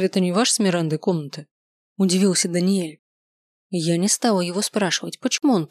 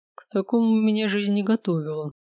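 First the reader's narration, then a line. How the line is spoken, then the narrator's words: Muffled hollow voice. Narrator (Russian): глухо произнес Дэн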